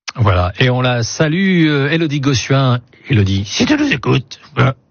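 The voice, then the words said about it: Poor imitation of another person's voice. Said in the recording (French): “très mauvaise imitation de Michel Drucker”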